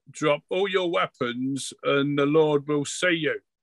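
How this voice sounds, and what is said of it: Put-on imperial-sounding accent. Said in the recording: “in a very empire-ish accent”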